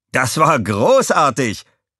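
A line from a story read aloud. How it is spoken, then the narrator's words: Excited call. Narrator (German): rief Walter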